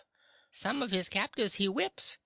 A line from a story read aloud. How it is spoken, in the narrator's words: squeaked the weasel's head